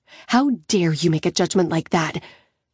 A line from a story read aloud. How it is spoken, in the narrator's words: I hiss